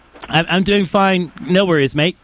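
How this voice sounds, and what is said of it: Put-on Australian accent sounding British. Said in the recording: “That horrible accent... your British accent sounds Australian... your Australian accent sounds British”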